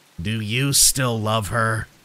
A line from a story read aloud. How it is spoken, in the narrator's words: It spoke in a gargled voice